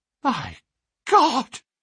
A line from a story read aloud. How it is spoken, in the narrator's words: gasped